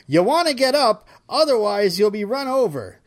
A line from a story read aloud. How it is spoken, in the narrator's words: An off-duty paramedic honked and shouted